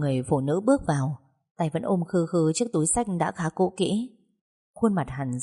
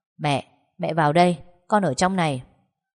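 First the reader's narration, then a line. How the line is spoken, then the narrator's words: Loud booming voice. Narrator (Vietnamese): tiếng Vũ Kỳ đã oang oang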